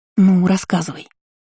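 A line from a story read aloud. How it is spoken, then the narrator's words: Conspiratorial whisper. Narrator (Russian): заговорщицки прошептала подруга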